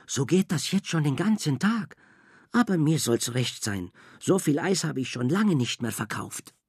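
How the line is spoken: Whisper. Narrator (German): flüsterte Frau Angelo den Zwillingen zu

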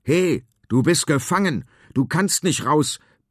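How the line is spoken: Bellowing. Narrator (German): brüllt Finn

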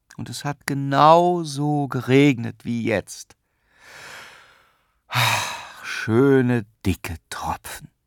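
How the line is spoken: Father sighing. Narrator (German): seufzte der Vater

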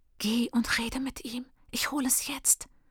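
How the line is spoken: Hissing. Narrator (German): zischt Freedom

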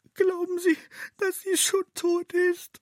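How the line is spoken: Sobbing fairy. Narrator (German): die kleine Fee schluchzt

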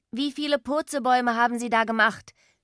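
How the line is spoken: Called out. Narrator (German): rief

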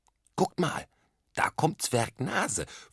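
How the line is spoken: Excited whisper. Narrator (German): flüsterte Dennis begeistert

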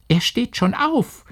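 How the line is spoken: Calling from outside door. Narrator (German): rief es sofort draußen vor der Tür

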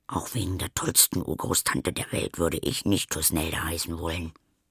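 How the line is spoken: Whispering to herself. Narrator (German): wie Anna vor sich hin flüstert

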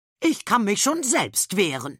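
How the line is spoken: Calling out. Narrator (German): ruft Herr Meierschmidt

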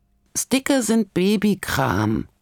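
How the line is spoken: Croak from bunk bed. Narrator (German): krächzt es da vom Stockbett herunter

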